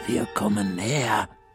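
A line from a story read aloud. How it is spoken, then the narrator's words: Whisper. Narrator (German): flüstert Frau Krüger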